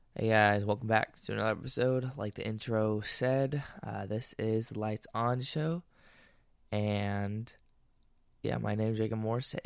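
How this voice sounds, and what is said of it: Voice sounds a little off. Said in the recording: “I sound a little weird, it's because allergies kicking my butt right now”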